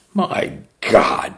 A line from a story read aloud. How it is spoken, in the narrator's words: she sneered